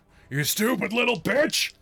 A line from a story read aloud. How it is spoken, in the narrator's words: He's going to scream